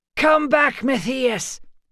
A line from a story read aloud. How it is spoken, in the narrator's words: Vera shouted after him